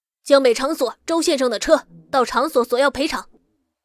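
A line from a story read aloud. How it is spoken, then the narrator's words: Shouting. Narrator (Chinese): 保镖大喊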